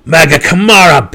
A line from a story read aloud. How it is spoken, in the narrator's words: Belwar roared